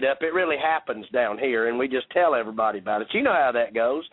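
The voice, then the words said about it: Georgia Southern accent. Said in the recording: “is just bringing the Georgia accent.”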